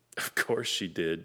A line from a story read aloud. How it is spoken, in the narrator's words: said Steve with a snort